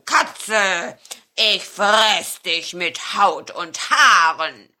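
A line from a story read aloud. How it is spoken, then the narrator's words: Growl. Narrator (German): knurrte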